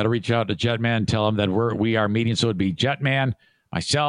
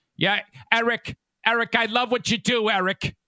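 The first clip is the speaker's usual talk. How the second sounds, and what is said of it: Imitates another person's voice. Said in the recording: “my Kate impression”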